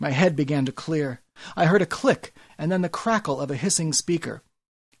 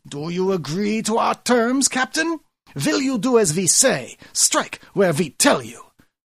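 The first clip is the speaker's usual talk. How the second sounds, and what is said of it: Loud haughty bad German accent. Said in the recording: “loud, haughty, with a terrible German accent”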